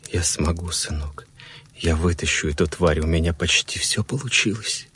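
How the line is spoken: Whisper. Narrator (Russian): прошептал он

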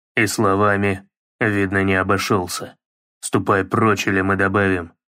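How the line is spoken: Plain. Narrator (Russian): сказал Кратос

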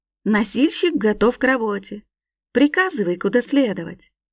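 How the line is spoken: Joyful announcement. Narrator (Russian): радостно объявил

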